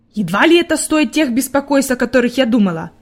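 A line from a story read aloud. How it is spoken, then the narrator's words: Grumbled. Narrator (Russian): пробурчала она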